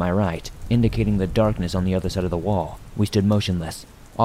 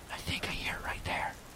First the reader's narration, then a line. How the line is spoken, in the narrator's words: I whispered